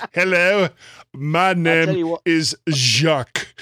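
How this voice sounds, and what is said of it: Put-on French accent. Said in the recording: “just go right over to a French accent.”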